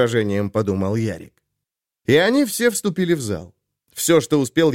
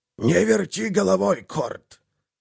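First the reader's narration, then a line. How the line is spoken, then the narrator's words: Old bosk hissing. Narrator (Russian): Шипение старого боска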